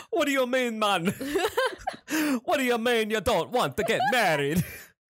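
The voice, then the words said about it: Attempted Irish accent sounding Jamaican, Dracula-like. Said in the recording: “my Irish accent, I end up selling Jamaican ... Why are you Dracula? ... Jamaican Dracula.”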